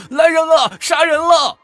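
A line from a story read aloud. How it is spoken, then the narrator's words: Panicked loud shouting. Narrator (Chinese): 何嘉文惊醒之后…满身是血地跑出家门，大声地喊道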